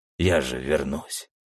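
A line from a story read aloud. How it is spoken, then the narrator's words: Through clenched teeth. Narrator (Russian): процедил я сквозь зубы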